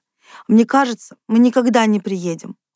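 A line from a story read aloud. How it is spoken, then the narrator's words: Glum. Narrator (Russian): уныло сказала Катя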